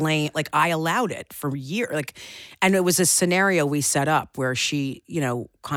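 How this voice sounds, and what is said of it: Usual voice. Nothing is said of it.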